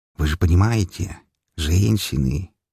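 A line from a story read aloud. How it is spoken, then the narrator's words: Conspiratorial tone. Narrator (Russian): добавил заговорщицким тоном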